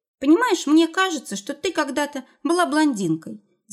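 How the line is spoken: Thoughtful. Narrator (Russian): задумчиво произнес

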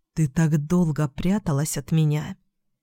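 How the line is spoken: Whisper. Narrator (Russian): прошептал он

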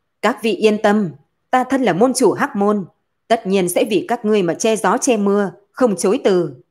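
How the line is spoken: Loud. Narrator (Vietnamese): Hắn lớn tiếng nói

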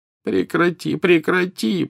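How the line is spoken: Moaning. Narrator (Russian): простонал Дамблдор

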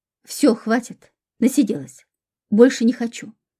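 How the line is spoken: Plain. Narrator (Russian): ответила заловки Юля

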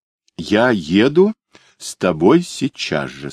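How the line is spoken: Plain. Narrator (Russian): сказала она

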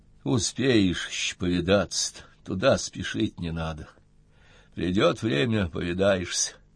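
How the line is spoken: Sad old woman. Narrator (Russian): грустно сказала старуха

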